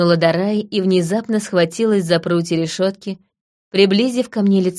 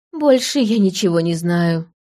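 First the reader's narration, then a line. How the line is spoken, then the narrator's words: Tired reply. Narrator (Russian): устало ответила Дарай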